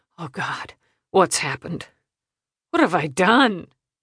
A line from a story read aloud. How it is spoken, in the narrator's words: Bradley dissolved into tears, muttering